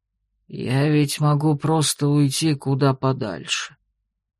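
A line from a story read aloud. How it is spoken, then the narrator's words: Quiet melancholy mutter. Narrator (Russian): вдруг тихо и с тоской пробормотал Синарк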